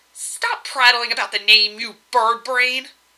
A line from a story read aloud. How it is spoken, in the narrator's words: she snarled